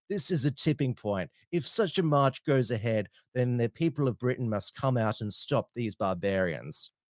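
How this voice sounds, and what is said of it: Pompous British voice impression. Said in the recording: “I'll try and do it in the voice ... my Douglas Murray impersonation ... He certainly speaks with a pompous voice.”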